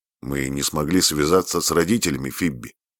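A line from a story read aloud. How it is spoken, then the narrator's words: Dry. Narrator (Russian): сухо произнес он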